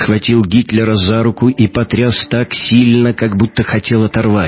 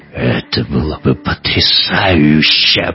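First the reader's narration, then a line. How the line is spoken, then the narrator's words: Growling. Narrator (Russian): прорычал Эккарт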